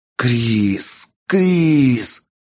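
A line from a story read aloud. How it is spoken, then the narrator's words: Hoarse wheezing. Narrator (Russian): хрипел он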